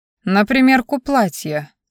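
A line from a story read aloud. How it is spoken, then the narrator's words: Calm. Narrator (Russian): спокойно ответил шеф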